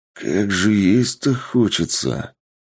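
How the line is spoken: Mumbling. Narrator (Russian): Пробормотал босс

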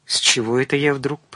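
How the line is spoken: Whispered. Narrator (Russian): прошептала

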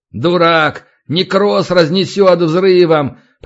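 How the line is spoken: Older man grumbling. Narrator (Russian): проворчал другой, постарше

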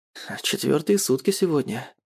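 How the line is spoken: Quiet reply. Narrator (Russian): тихо отвечает Ратмир

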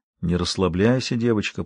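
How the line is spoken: Whispered. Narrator (Russian): прошептал

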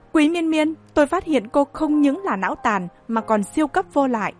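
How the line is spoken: Angry, through gritted teeth. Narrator (Vietnamese): Diệp Thiều Quang nghiến răng, tức giận mắng

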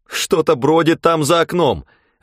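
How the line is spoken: Hysterical shout. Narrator (Russian): в легкой истерике крикнула Лоррейн

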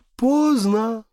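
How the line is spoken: Sigh. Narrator (Russian): вздохнула Морган

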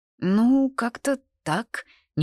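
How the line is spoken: Hesitant. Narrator (Russian): неуверенно сказал Корвин

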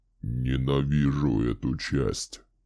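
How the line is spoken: Muttered. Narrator (Russian): пробормотал он

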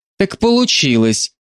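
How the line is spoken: Snort. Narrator (Russian): фыркнула Нина

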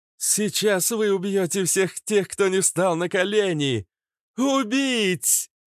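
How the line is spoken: Howl like rock singer. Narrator (Russian): Она взвыла, как вокалист рок-группы, и дальше продолжила говорить, уже нараспев, падая в неестественный для нее самой транс

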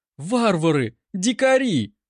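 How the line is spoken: Shouted. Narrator (Russian): кричала она

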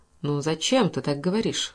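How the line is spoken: Said tenderly. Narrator (Russian): ласково сказал Каупервуд

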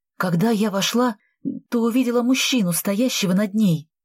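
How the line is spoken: Trembling voice. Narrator (Russian): дрожащим голосом рассказывала Полина

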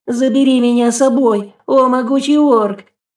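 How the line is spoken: Woman wailing loudly. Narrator (Russian): завопила толстуха

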